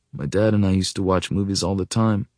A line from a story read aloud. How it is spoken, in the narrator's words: he says quietly